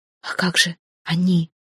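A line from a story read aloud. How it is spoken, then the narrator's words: Whispering. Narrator (Russian): шепотом обратилась я к Хортусу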